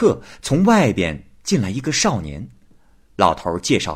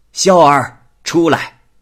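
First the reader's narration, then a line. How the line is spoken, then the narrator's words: Old man calling out. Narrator (Chinese): 老头于是叫道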